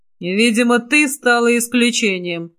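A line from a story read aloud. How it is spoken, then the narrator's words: Hoarse rasp. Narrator (Russian): прохрипел он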